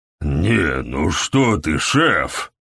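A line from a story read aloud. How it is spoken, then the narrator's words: Hoarse protest. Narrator (Russian): запротестовал сиплый голос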